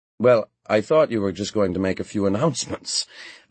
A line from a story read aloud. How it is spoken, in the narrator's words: I said, laughing